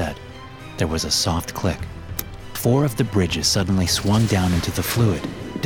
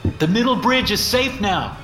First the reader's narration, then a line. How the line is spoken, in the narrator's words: I yelled